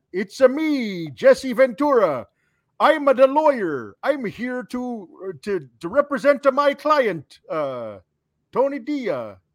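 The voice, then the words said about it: Put-on Italian accent. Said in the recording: “I'm working on the accent. I'm going to get better. ... I think it sounds great ... it sounded really, really good ... they don't really do the Italian accents”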